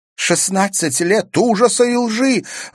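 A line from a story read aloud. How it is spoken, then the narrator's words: Exclaimed. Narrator (Russian): воскликнула Ангелина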